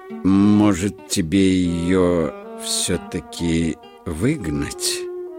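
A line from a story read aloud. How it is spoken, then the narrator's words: Unsure question. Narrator (Russian): неуверенно спросил Маскина правый тапок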